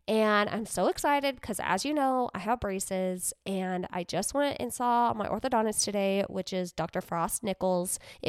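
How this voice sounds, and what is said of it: Slightly funky sick-sounding voice. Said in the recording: “residual sickness ... my voice sounds a little funky”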